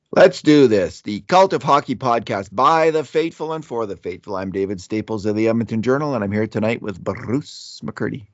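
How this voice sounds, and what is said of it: Stuffed-up, hoarse voice. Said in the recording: “A little stuffed up. ... Sound a little hoarse.”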